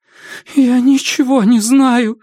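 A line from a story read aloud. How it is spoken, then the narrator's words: Pleading voice. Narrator (Russian): сказала она умоляющим голосом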